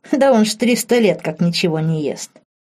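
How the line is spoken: Chuckling. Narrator (Russian): хохотнула Марта

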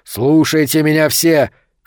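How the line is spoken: Shout. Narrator (Russian): крикнул Сильвера

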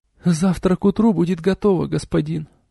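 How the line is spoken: Muttered. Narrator (Russian): пробормотала она

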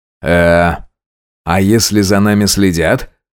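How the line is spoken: Plain. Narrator (Russian): спросил я

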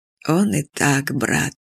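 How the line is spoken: Unusually gentle old man. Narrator (Russian): непривычно мягко сказал старый маршал

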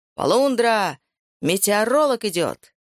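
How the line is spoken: Loud mischievous shout. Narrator (Russian): громко и озорно крикнул

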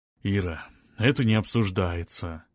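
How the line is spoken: Soft but firm interruption. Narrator (Russian): мягко, но решительно прервал жену Олег Викторович

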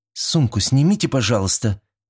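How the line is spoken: Gentle reminder. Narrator (Russian): мягко напомнила Синеглазка

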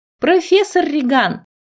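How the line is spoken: Joyful. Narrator (Russian): Радостно сказала я

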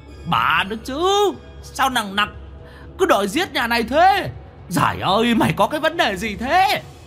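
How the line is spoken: Howling. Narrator (Vietnamese): Quỷ mõm gào lên

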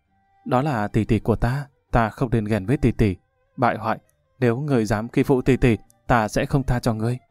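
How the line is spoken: Gentle lament. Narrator (Vietnamese): nhị tiểu thư giọng dịu dàng than

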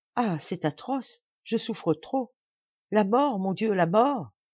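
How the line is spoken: Heartrending cry for help. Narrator (French): criant à l'aide d'une voix déchirante

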